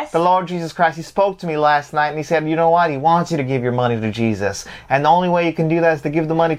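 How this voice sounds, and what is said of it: Southern televangelist preacher accent. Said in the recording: “I always wanted to be like a televangelist and do that accent ... That's pretty good ... I could be a good Southern Baptist ... I have a good Southern drawl to me”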